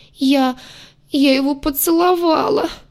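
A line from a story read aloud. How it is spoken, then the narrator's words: Moaning. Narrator (Russian): простонала сестренка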